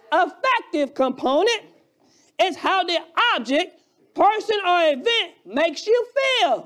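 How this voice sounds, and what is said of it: Alabama accent. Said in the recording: “my Alabama accent”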